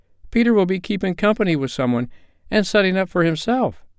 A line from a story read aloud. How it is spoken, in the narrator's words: cried one of the girls